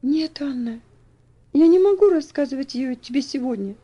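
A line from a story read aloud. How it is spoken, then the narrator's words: Calm but firm. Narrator (Russian): спокойно, но твердо ответила Элси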